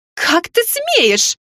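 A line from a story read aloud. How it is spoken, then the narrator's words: Shocked shriek. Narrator (Russian): взвизгнула леди Эстебана, почувствовав на лице влагу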